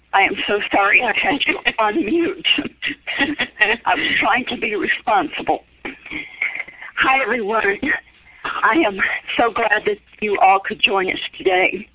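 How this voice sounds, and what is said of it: Impaired, unclear voice. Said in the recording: “My voice is kind of challenged today”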